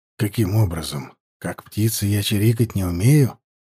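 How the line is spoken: Joking in serious tone. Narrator (Russian): Серьезным тоном пошутил

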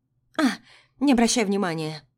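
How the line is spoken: Snorted. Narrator (Russian): фыркнула девушка

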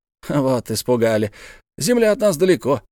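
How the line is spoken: Laughing. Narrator (Russian): засмеялся капитан Сервадак

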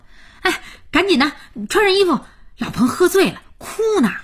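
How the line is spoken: Loud shouting. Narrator (Chinese): 佳期大声吆喝

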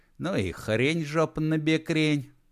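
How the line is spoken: Chuckling. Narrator (Russian): хохотнул Матушкин

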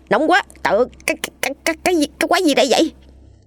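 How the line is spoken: Abruptly cut off. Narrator (Vietnamese): Đang nói dứt câu, hắn vội vã im bặt

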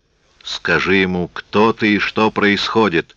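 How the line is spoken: Growl. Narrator (Russian): прорычал он Мириам

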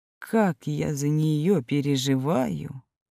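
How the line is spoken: Whisper. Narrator (Russian): прошептал Георгий Георгиевич

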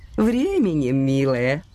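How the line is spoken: Elderly woman laughing. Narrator (Russian): рассмеялась пожилая дама

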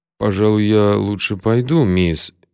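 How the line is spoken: Uncertain mumble. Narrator (Russian): неуверенно промямлил

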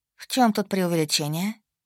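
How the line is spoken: Sighing. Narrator (Russian): Сина вздохнула

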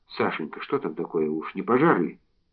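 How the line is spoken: Breathless, frightened question. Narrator (Russian): Мария Николаевна, прислушиваясь испуганно к шуму в зале, спросила

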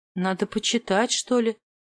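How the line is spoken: Muttered, cut off. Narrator (Russian): пробормотала, но тут же оказалась перебита

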